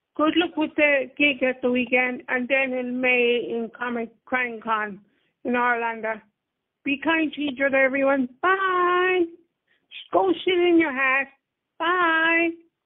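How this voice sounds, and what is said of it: Irish accent. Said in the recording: “That's my first Irish go shit in your hat... I love the accent.”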